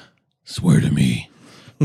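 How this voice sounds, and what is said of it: Batman character voice. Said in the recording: “doing your Batman voice?”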